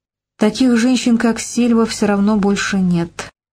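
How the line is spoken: Dejected self-reassurance. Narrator (Russian): уныло уверил он себя

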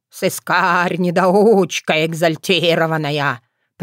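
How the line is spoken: Grumbling. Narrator (Russian): проворчал Бордодым

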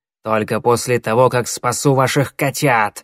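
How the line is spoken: Hissed reply. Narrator (Russian): зашипела в ответ Щербатая

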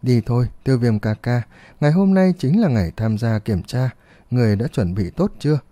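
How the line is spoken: Shy smiling speech. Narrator (Vietnamese): Khuôn mặt nhỏ yêu kiều có chút đỏ lên, Huân Nhi hé miệng mỉm cười nói

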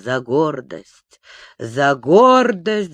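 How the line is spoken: Muttering to himself. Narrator (Russian): бормотал он сам с собою

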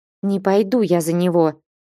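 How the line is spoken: Through gritted teeth. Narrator (Russian): сквозь зубы проговорила Настя

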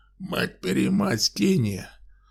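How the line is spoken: Barked by old man. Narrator (Russian): рявкнул дедуля

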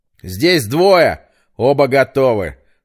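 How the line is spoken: Shout. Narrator (Russian): выкрикнул Петр

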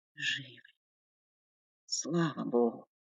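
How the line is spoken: Breathed out in relief. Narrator (Russian): выдохнул Вадим

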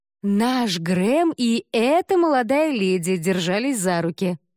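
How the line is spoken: Loud answer. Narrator (Russian): ответила та также громко

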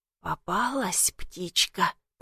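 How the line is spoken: Whispered. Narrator (Russian): прошептал он

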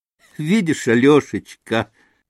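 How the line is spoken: Nervous laugh. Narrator (Russian): нервно рассмеялась вдруг Грушенька

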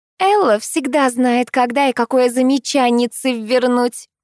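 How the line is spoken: Snide remark. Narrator (Russian): ехидно заметила Алла

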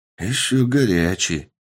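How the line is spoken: Joyful hungry mumble. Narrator (Russian): радостно пробормотал голодный мужчина

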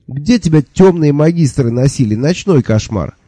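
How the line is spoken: Indignant inquiry. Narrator (Russian): возмущенно осведомился

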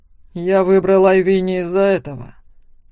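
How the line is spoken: Growling. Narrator (Russian): рыкнул Макс

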